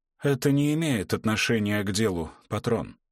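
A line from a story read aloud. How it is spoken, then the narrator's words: Hoarse. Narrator (Russian): хрипло проговорил Оскар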